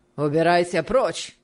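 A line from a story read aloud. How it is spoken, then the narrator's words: Rough retort. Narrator (Russian): ответил аукционист, грубо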